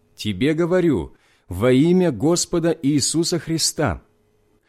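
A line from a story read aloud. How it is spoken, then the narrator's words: Loud voice. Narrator (Russian): сказал громким голосом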